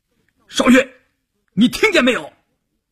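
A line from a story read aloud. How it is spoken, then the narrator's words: Shouted. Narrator (Chinese): 关山林喊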